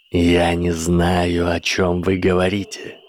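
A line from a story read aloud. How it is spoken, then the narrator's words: Icy declaration. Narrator (Russian): ледяным тоном заявил профессор Деливарение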